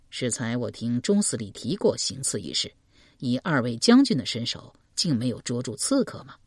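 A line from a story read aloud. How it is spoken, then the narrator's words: Plain. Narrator (Chinese): 文渊道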